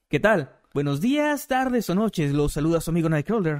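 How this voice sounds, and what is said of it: Narrator-style announcer voice. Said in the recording (Spanish): “voz de narrador”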